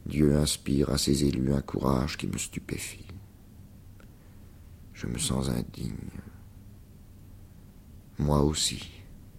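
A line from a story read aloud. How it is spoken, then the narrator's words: Forced low voice. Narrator (French): Il se força enfin à prononcer à voix basse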